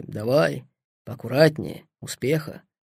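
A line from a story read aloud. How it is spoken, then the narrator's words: Quiet soldiers talking. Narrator (Russian): Бойцы негромко говорили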